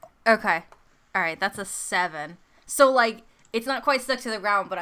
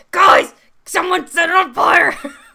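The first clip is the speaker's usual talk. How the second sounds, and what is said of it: Yelling. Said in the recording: “but I'm yelling”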